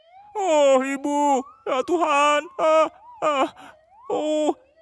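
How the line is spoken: Turtle moaning in pain. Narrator (Indonesian): Sang penyu terus merintih kesakitan

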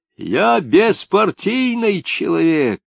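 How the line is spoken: Desperate voice. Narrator (Russian): отчаянным голосом заговорил Жмакин

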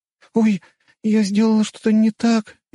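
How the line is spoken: Frightened question. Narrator (Russian): испуганно спросила Любава

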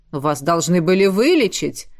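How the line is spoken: Stern. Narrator (Russian): строго ответил князь

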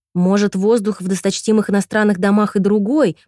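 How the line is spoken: Grumbling. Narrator (Russian): проворчала

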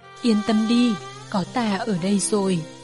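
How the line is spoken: Soft laughing, soothing. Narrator (Vietnamese): Vân Châu cười khẽ, nói

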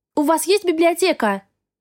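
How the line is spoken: Shouting after someone. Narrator (Russian): крикнула я ему вслед

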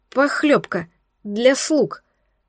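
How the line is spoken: Stammering maid. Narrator (Russian): заикаясь, пояснила горничная

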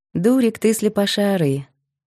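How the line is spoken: Tender mother's voice. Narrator (Russian): ласково говорила мама Лизы, Марина

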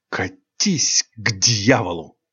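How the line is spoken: Hissing. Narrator (Russian): прошипел белокурый ангел

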